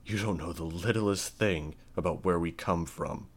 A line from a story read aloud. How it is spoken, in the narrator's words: Victor snarled